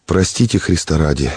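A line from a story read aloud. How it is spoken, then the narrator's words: Quiet reply. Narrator (Russian): ответил тихо Иероним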